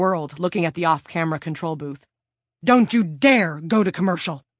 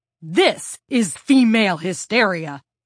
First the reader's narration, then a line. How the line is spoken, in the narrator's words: Stephanie shouted